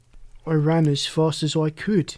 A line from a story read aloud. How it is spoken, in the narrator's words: said, yawning